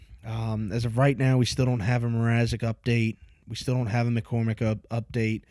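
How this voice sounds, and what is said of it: Hoarse, strained voice. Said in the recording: “you can probably hear my voice is a little gone from the entire game”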